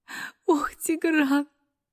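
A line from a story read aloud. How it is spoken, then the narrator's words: Sobbing. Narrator (Russian): всхлипывает она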